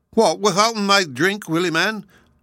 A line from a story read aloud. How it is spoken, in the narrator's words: shouted the others